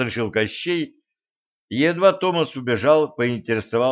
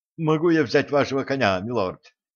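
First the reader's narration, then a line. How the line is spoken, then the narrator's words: Plain. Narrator (Russian): спросил слуга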